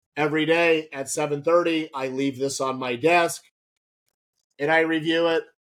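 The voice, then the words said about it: Voice slightly off, sounds unwell. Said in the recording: “my voice is a little off today. I've been under the weather”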